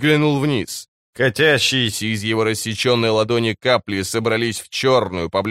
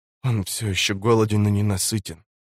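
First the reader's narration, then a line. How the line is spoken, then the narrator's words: Whisper. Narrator (Russian): прошептала она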